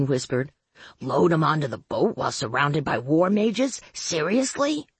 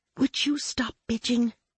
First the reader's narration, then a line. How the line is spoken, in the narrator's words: I said softly